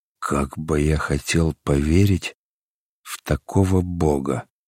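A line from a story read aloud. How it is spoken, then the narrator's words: Quiet. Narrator (Russian): сказал тихо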